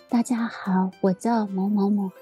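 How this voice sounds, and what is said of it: Very quiet, timid voice. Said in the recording (Chinese): “他讲话哦非常小声 ... 然后讲话很小声”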